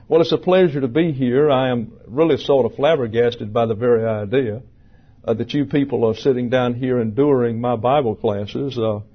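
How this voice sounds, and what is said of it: Southern American accent. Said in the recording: “speak Southern ... I'm originally from Alabama.”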